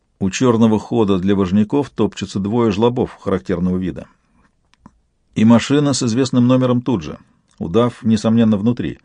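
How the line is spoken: Quiet report. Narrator (Russian): негромко сообщил

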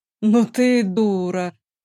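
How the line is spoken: Drawn out, with feeling. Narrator (Russian): с чувством протянул Ольран

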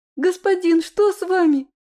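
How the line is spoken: Terrified shriek. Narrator (Russian): В ужасе взвизгнул все тот же голос рядом

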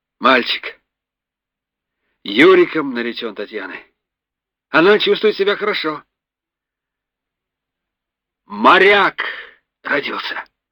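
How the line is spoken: Loud. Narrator (Russian): громко сказал Русов

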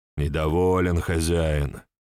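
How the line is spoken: Tired. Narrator (Russian): молвил устало

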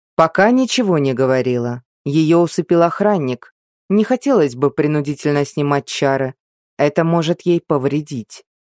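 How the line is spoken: Plain. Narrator (Russian): ответил советник

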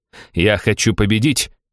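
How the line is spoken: Snapping retort. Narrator (Russian): огрызнулся Семен

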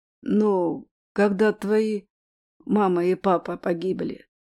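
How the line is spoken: Choked voice. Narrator (Russian): сдавленным голосом сказала Риша

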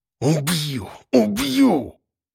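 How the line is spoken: Muttering. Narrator (Russian): Бормотал

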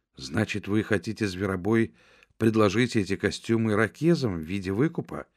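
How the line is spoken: Quick question. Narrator (Russian): быстро спросила Джудит

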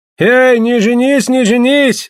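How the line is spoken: Crowd shouting. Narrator (Russian): закричали гольды

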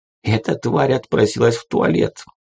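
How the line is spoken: Hurried undertone. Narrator (Russian): поспешно начал объяснять Казим вполголоса

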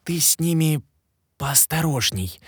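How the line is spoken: Urgent whisper in ear. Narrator (Russian): тут же горячо зашептал мне на ухо

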